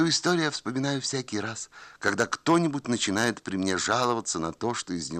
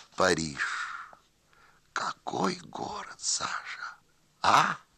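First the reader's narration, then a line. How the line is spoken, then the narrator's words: Quiet speech. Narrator (Russian): господин Киселев тихо проговорил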